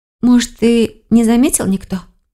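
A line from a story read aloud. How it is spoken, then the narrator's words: Hopeful sigh. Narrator (Russian): с надеждой вздохнула Келлер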